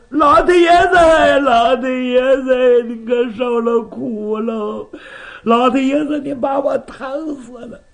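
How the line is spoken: Crying. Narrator (Chinese): 他哭开了

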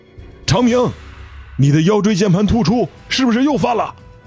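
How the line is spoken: Alarmed cry. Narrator (Chinese): 这位队员惊叫着

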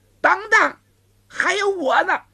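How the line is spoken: Shout from behind. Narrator (Chinese): 身后有人喊

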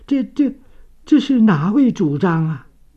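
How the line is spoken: Trembling voice. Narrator (Chinese): 世序声音发颤

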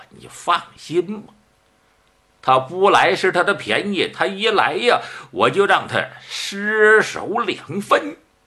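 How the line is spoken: Smiling. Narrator (Chinese): 狄红一笑

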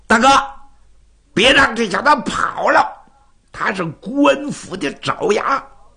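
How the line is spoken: Shouting. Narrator (Chinese): 花蝴蝶就喊

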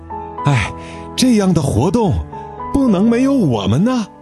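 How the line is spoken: Panting heavily. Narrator (Chinese): 杰巴勒大口大口地喘着气说

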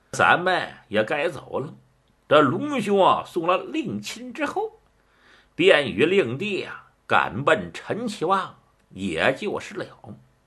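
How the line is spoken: Laughing. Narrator (Chinese): 蒋平笑了

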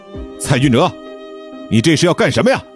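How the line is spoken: Angry loud question. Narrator (Chinese): 梁峰气呼呼地大声地问道

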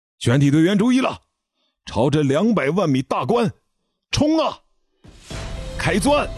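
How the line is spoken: Loud shout. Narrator (Chinese): 李新民的一声大喊

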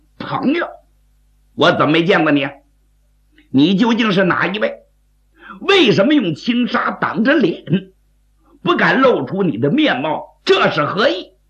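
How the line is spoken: Sneering laugh. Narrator (Chinese): 刘世杰冷笑一声

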